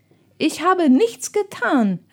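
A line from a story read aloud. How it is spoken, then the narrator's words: Calling out. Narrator (German): rief Ralf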